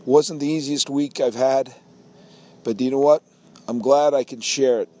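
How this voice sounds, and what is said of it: Worn-out, nearly lost voice. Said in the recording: “my voice is gone. I'm a little lightheaded”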